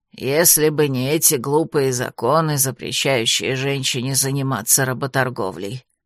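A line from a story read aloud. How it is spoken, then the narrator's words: Grumbling. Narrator (Russian): проворчала она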